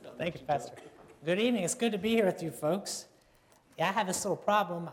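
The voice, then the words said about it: Hoarse, slightly strained voice. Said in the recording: “He got laryngitis, he said, a little bit ... Do forgive me if I sound a little bit hoarse.”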